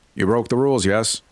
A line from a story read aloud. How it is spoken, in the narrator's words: she asked flatly